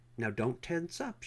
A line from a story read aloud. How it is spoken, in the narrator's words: she said